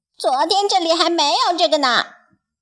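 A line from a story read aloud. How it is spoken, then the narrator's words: Startled cry. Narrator (Chinese): 它惊叫起来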